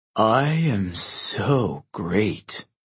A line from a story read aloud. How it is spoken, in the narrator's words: Narcissus sighed